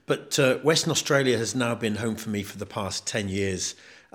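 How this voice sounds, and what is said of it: British accent. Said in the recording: “From the accent, I probably don't sound as though I am because I originate from the UK.”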